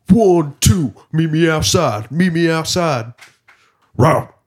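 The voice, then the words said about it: Imitates another person's voice. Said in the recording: “that your DMX impression”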